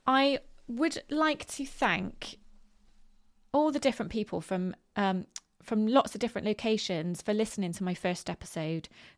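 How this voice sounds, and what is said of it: West Country English accent. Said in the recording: “I am from Bristol in the UK, which is in the southwest of the country ... a West Country accent ... you might hear the odd R coming out of me”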